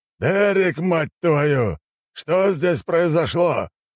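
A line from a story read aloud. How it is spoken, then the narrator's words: Roar. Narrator (Russian): взревел Брайан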